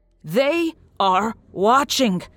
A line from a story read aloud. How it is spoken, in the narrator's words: he shouted